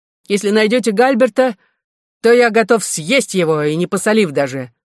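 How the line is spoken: Shouted after someone. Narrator (Russian): крикнул Кристи вслед Эдуарду

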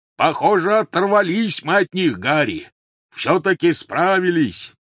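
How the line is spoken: Shouted. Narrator (Russian): крикнул Хагрид

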